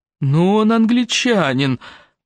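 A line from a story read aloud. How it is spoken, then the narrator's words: Groan. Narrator (Russian): простонал Дрю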